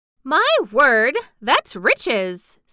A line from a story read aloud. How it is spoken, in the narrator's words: said Martha